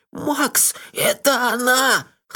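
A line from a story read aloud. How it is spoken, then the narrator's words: Hoarse. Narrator (Russian): хрипло сказал Мелифара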